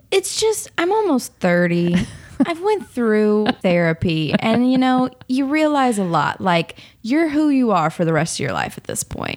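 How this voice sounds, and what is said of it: Working-class American regional accent. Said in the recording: “I am white trash, though. You can hear it in my accent.”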